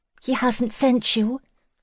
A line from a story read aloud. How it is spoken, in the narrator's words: Lizzie asked anxiously